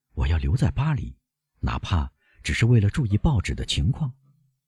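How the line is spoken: Low voice. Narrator (Chinese): 他低声补充说

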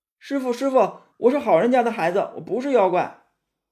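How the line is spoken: Feigned frightened calling. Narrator (Chinese): 那个妖怪就装作很害怕的样子，喊唐僧

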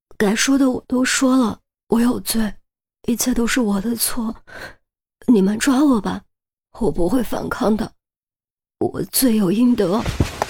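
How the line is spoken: Choked, tearful sobbing. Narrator (Chinese): 陈玲玲一边擦泪一边哽咽地说

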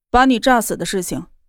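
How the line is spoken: Flat, indifferent. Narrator (Chinese): 严立浩淡淡的说道

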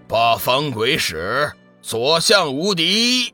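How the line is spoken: Shouted battle cry. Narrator (Chinese): 随着喊声

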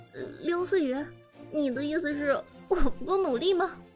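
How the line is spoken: Wry exasperated question. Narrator (Chinese): 伍兹听了这话，却只能哭笑不得的问道

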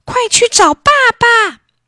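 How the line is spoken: Anguished cry. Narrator (Chinese): 织女心痛极了，一时说不出话来，只喊了一句

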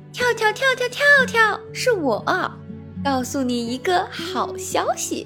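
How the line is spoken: Hurried, loud. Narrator (Chinese): 月月连忙停下来，大声地说

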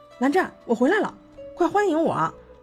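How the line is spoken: Cheerful call. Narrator (Chinese): 这个冷冰冰的大东西欢快地叫道

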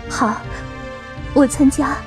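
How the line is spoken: Excited, trembling voice. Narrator (Chinese): 我激动的声音颤抖

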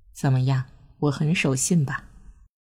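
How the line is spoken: Whispering in ear. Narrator (Chinese): 庆子附耳低声道

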